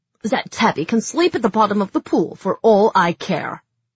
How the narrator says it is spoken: she snapped

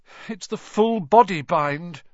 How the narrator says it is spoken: said Hermione miserably

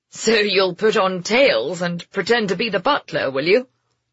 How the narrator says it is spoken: Guy chuckled

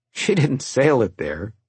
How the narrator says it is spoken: he laughed

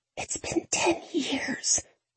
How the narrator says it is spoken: I whisper

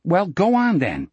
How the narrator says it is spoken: Peterson said crossly

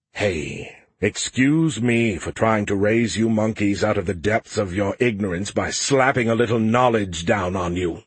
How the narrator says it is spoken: Skippy grumbled

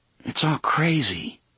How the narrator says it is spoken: he murmured

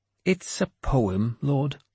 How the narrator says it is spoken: he said weakly

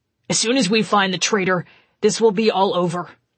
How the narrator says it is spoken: Janice told him firmly

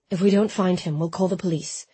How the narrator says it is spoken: he said softly

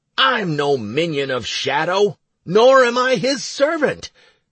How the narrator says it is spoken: I shouted at the guard

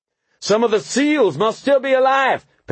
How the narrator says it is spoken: Pendergast shouted

